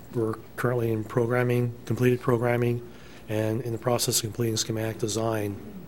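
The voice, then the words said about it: Strained voice, losing it. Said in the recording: “apologize for my voice. I may be losing it here pretty quick.”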